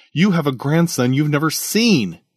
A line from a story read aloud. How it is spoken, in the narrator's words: he exclaimed